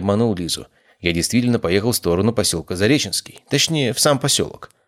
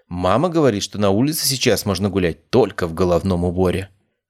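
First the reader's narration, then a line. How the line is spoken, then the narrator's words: Stern. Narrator (Russian): строгим голосом сообщила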